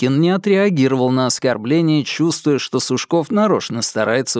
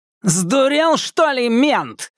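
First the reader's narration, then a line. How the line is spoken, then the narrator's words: Yelling. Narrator (Russian): заорал Сушков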